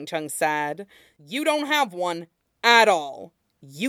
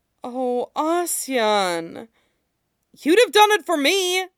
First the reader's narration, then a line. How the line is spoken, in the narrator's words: Wei Wuxian exclaimed